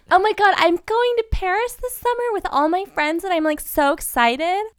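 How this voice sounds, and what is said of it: High-pitched girly anime-like voice. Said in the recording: “Obviously we could talk up here if we wanted to ... High I can go ... That's like a voice from Ratatouille of like a little rodent ... Does that sound like a girl? ... it sounds like a trickster ... It sounds like a little anime character.”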